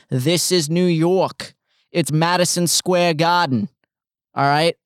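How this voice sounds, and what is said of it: Put-on Boston accent. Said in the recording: “That was a Boston accent.”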